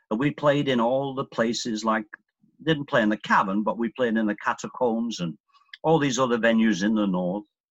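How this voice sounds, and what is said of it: Northern English Lancashire accent. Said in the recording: “I was born in Glasgow, Scotland. Moved to Lancashire, England ... when I was 9. ... And that's when I acquired this accent.”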